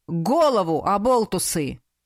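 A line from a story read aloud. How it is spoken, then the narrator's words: Barked. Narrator (Russian): рявкнул на нас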